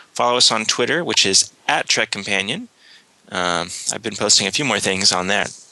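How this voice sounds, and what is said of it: Hoarse voice, losing it. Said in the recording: “I'm losing my voice because I have a little bit of a cold.”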